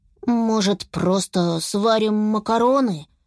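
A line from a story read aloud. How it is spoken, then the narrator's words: Timid suggestion. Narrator (Russian): робко предложил Беня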